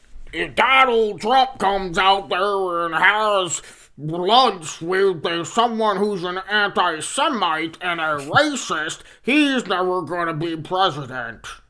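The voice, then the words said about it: Imitates another person's voice. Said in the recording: “great impression ... that's my Mitch McConnell. You have to get the cheeks in there to start moving a little bit.”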